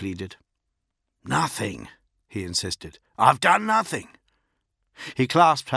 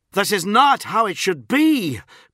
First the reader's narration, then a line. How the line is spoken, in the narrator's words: Grammaticus roared